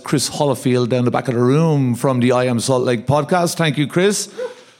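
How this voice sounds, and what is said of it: Irish accent. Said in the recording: “my Irish twang”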